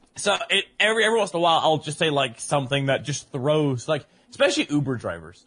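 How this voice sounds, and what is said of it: Mixed accent, mostly American. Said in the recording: “my accents are just kind of like stockpiled on top of each other ... a little bit of English, a little bit of Australian, a little bit of American. Actually, now a lot of American ... Yeah, it is.”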